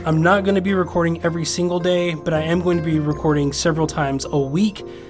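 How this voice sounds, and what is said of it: Slightly scratchy voice. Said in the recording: “my voice is a little scratchy because I've been talking for the last like 2.5 hours”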